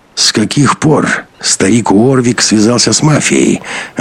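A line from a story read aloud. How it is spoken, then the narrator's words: Hoarse question. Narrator (Russian): охрипшим голосом спросил Беленин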